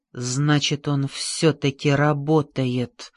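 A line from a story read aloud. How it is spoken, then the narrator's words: Whispered. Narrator (Russian): прошептал он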